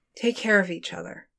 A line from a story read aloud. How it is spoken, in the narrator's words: Brianna murmured